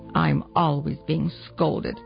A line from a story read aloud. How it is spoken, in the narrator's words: muttered Rosina to herself